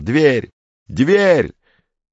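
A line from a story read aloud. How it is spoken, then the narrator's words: Shouting. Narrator (Russian): Комов уже кричал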